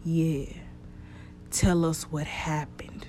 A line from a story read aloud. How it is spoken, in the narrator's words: Noah moaned